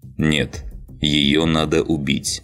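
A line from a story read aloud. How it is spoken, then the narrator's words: Firm, unyielding tone. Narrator (Russian): непреклонным тоном произнес Ланс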